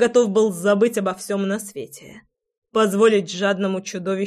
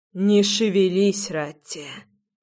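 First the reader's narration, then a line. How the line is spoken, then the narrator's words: Hoarse, strained. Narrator (Russian): выдавил я сипло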